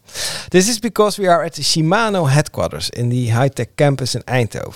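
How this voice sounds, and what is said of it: English with slight Dutch accent. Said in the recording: “I'm speaking English, or at least I, I try to. I, I will do my best, with a little bit Dutch accent, I guess.”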